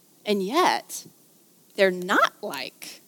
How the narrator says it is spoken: said Lucy

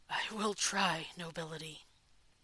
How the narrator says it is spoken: A tried to swallow, then rasped

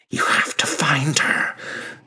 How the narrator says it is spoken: Syfili hissed

